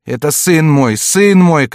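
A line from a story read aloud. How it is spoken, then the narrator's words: Mother shouting. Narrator (Russian): кричала мать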